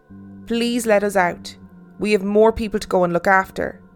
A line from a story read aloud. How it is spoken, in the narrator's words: said as calmly as I could